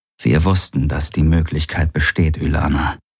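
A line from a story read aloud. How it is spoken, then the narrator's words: Gentle and sad. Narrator (German): sagte er sanft und traurig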